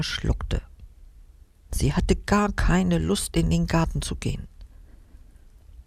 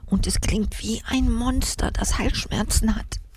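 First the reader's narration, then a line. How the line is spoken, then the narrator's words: Whisper. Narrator (German): flüsterte sie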